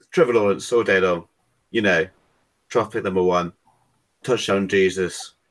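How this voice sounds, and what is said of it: British accent. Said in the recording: “are you actually British? ... Accent ... that's just not the voice I expected to come out of that”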